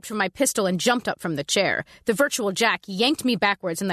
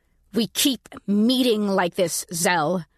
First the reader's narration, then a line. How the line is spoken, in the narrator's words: said through gritted teeth